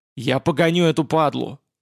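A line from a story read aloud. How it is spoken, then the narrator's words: Fierce battle bark. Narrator (Russian): в боевом запале рявкнул Василий Семенович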